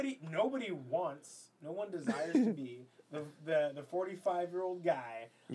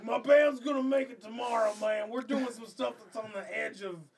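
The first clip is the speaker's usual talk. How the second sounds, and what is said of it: Exaggerated put-on stereotyped accent. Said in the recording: “that's a little racist ... That was the accent ... That was a bit much.”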